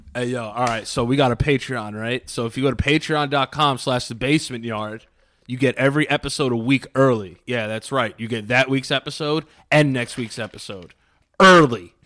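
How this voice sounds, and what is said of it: Exaggerated macho manly voice. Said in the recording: “Like I'll say like a real man.”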